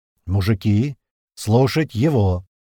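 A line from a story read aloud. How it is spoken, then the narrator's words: Loud. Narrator (Russian): громко произнес Апрель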